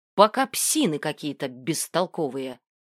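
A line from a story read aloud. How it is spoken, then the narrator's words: Snorting. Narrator (Russian): хмыкнул Орв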